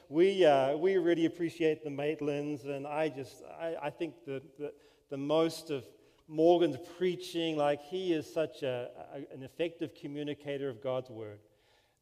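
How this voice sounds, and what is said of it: New Zealand accent, slightly Americanized. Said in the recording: “I'm from New Zealand. Is the accent okay? ... they think we have an American accent ... I'm stuck somewhere in the middle”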